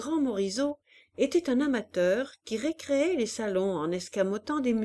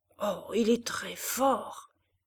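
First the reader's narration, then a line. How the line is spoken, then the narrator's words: Murmured close. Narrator (French): murmura Malignon dans le cou de Madame de Berle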